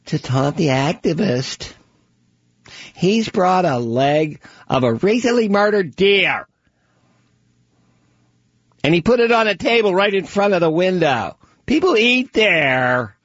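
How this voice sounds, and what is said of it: Put-on voice of activist character. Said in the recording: “That was my impression of Len Goldberg ... Len Goldberg, the animal activist”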